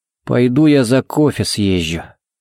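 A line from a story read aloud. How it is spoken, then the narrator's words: Gruff mumble. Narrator (Russian): буркнул он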